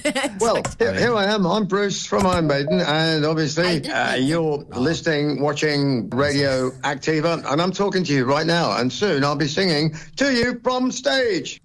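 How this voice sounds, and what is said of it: British English accent. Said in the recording (Spanish): “Ese es el acento británico”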